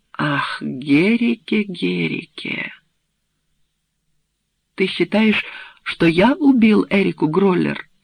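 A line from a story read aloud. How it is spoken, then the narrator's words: Plain question. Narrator (Russian): спросил Герике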